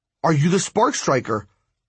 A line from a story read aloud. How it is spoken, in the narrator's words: I asked impatiently